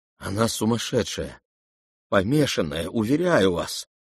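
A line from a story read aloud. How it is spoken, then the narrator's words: Trembling voice. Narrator (Russian): отвечал князь дрожащим голосом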